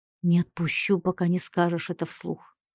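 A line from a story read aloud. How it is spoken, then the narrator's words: Whisper in ear. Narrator (Russian): прошептал мне на ухо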